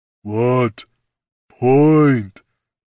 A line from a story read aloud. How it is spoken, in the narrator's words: rumbled a voice above his companion